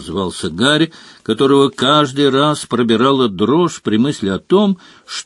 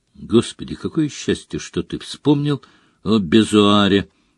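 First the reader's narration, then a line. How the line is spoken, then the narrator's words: Quiet speech. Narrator (Russian): негромко сказал Джордж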